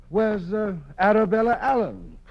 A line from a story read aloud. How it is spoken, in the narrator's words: cried a dozen voices